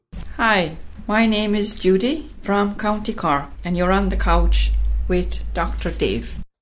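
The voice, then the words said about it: Lovely Irish accent. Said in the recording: “lovely accent reminds me of my trip to Ireland”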